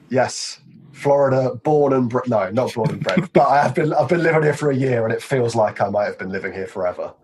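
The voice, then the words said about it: Strong American accent. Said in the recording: “his very strong American accent”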